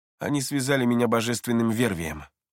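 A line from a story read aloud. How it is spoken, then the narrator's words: Calm voice. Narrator (Russian): его голос звучал спокойно, когда он сообщил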